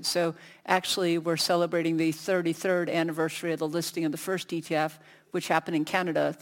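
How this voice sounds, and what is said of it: American accent. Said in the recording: “as you can tell from my voice, originally from the States”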